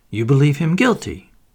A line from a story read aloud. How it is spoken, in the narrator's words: said Stoner sharply